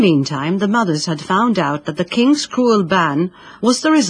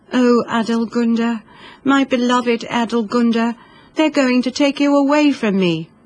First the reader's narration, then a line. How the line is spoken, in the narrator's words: sobbed over and over